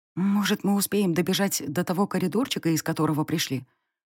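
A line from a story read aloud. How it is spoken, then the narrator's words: Hopeful whisper. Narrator (Russian): прошептала я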